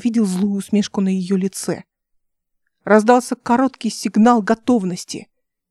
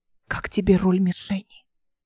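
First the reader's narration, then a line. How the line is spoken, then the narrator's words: Whispered question. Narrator (Russian): шепотом спросила она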